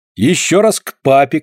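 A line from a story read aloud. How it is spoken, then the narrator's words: Shout. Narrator (Russian): кричала Полина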